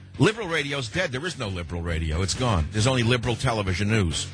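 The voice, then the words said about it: Bronx New York accent. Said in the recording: “sounding like I'm from the Bronx, because I am from the Bronx originally”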